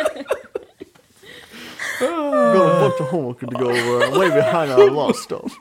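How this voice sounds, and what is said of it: Mocking sarcastic teenage voice. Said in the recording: “in the movie Elf, when the son is mocking the dad ... That's exactly what you sounded like”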